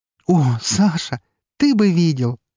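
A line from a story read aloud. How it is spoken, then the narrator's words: Exclaimed. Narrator (Russian): воскликнула Елена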